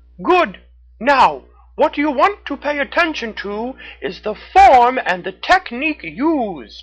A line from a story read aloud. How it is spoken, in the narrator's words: Red the Raccoon shouted down to her